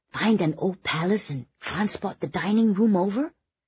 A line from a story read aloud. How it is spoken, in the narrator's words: Kitty whispered to Oliver